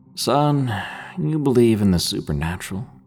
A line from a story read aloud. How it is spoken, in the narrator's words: sighed and asked me in that old southern accent of his